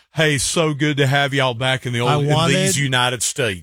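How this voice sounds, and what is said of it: Exaggerated put-on Southern accent. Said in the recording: “a big Southern accent”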